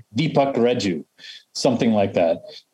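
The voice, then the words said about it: Heavy put-on Indian accent. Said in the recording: “if I were Indian, I'd have a heavy accent”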